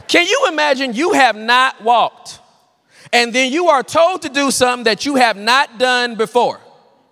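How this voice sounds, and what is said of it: Country Southern way of talking. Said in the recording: “I know I'm talking country”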